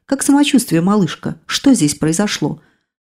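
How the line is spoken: Casual everyday tone. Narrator (Russian): Катя ответила вполне обыденным тоном

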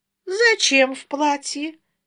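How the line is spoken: Purred. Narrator (Russian): промурлыкала

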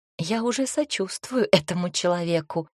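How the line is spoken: Whispered. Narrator (Russian): шепнула

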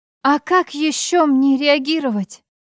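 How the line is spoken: Holding back sobs. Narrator (Russian): к горлу подступают рыдания, но сдержалась

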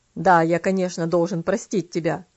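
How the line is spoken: Cold reply. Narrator (Russian): холодно ответил дедушка

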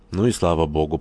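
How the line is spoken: Yawning mumble. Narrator (Russian): пробурчал, зевая, Горданов

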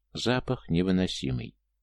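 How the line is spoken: Said softly. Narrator (Russian): Джун негромко произнес

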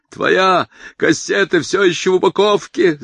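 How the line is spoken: Father yelling from behind. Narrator (Russian): заорал отец из-за его спины

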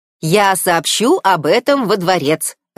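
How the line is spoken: Crisp clipped. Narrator (Russian): отчеканил Скатл

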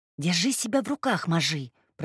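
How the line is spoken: Whisper. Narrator (Russian): прошептала Нуша

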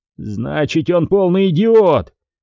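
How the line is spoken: Angry shout. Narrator (Russian): закричал, выходя из себя Ди Джорджи

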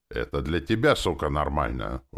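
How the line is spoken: Sullen grumble. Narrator (Russian): угрюмо проворчала демон

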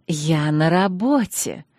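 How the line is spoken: Hissing with a smile. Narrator (Russian): улыбаясь еще шире, прошипел он

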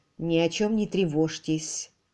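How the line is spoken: Quiet. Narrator (Russian): тихо сказал Кэрри

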